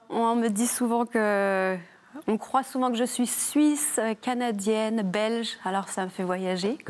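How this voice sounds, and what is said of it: Light sing-song regional French accent. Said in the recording (French): “vous avez un léger accent. Euh, plutôt chantant. ... du Jura ... du petit accent chantant.”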